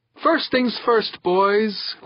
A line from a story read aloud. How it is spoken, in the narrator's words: Valker said, his voice high with excitement